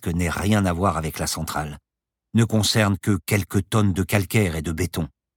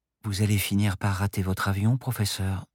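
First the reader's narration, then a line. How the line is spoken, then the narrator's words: Soft whisper in ear. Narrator (French): lui glissa doucement Paloma à l'oreille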